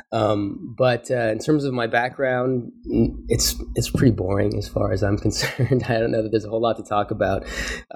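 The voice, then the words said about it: Congested voice from a cold. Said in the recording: “I'm recovering from a cold right now, pretty nasty cold, so my voice may not be too pleasant to listen to”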